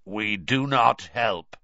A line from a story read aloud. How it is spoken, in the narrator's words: he said, in a harsh, croaky voice